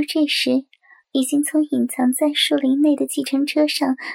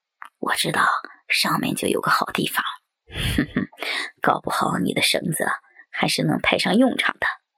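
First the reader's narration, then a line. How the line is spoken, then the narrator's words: Low, deep voice. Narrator (Chinese): 那个声音低沉的家伙又说话了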